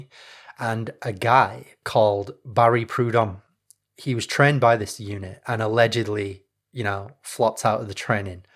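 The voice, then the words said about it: Northern English accent. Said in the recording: “my hometown of Leeds, where I come from. Leeds is in the north of England, in case you can't tell from the accent.”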